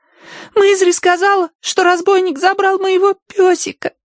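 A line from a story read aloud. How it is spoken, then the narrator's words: Trembling babble. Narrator (Russian): дрожа пролепетала Агнес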